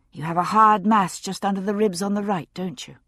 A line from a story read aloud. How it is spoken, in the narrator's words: I said kindly